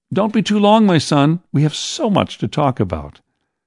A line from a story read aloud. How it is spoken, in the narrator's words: Mother shouted after me